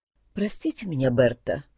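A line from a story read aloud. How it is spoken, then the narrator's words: Spoken quietly. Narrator (Russian): тихо проговорила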